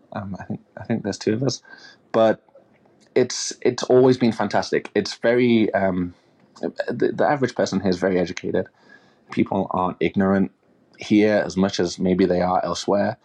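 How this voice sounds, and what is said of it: English accent. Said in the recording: “I'm black with an English accent”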